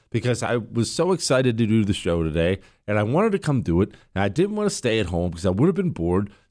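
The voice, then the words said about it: Weak, strained sick voice. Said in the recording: “I'm sorry about my voice, and I'm sorry I'm a little foggy tonight ... I could hardly talk, and I keep coughing whenever I start raising my voice”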